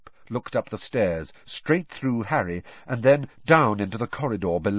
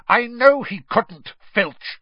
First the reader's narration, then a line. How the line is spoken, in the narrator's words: Snape snapped